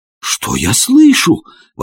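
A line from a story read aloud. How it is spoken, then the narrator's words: Astonished exclamation. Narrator (Russian): воскликнул я пораженный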